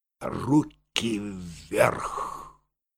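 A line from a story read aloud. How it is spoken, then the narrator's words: Quiet but firm. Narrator (Russian): тихо, но решительно сказал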